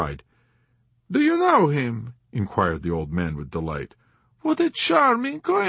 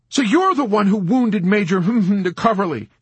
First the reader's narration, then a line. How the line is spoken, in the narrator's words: he exclaimed in horrified indignation